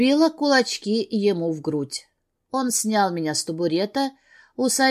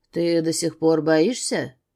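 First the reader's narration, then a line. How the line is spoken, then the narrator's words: Lustful growl. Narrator (Russian): рыкнул вожделенно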